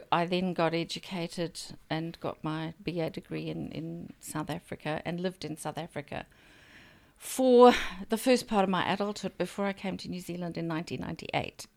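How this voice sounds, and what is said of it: South African-influenced accent. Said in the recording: “that's why I've got the accent that I do”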